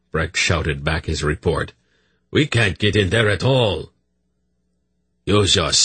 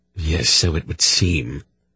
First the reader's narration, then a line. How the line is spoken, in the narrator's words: Silk breathed back grimly